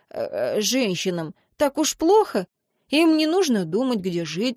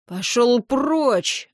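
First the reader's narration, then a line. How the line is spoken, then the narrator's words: Roared. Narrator (Russian): взревел второй спорщик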